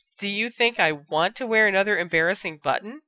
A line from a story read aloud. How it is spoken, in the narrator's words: Ginny retorted